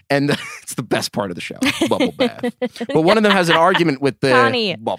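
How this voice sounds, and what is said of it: Usual voice. Nothing is said of it.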